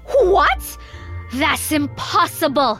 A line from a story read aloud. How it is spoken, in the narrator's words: screamed the queen